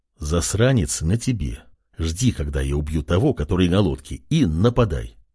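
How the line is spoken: Quiet command. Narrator (Russian): тихо приказал король

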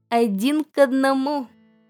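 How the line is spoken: Plain. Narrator (Russian): ответил папа

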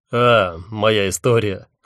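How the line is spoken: Snort. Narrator (Russian): хмыкнул он

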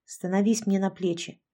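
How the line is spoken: Growled command. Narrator (Russian): Рома рыкнул на Яшку

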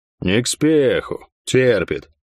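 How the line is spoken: Deep bass blacksmith. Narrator (Russian): пробасил кузнец

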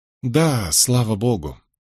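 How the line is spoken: Muttered in a lowered voice. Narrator (Russian): Фрэнсис пробормотал, понизив голос

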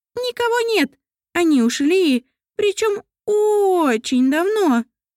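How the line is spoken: Squeaky voice. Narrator (Russian): Пропищал Мамондик жмунь

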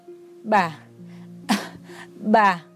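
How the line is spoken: Shaken, breathless. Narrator (Vietnamese): Ông ôm ngực, ngón tay run rẩy

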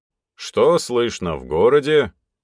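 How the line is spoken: Loud question. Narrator (Russian): громко спросил у него Трофимыч

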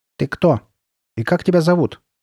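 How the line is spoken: Stern question. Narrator (Russian): строго спросила она

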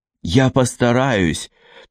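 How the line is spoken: Forced out, flustered. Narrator (Russian): только и выдавила Селеста, охваченная смятением

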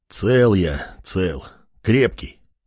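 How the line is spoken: Older man exhaling. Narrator (Russian): немолодой мужчина выдохнул

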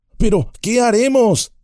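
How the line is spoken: Desperate exclamation. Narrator (Spanish): exclamó Pippin, desesperado

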